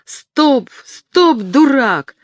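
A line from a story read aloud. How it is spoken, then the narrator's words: Yelled. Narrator (Russian): заорал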